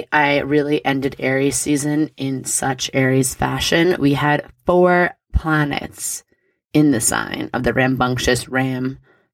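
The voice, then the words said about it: Slightly raspy voice. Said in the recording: “my voice is a little raspy.”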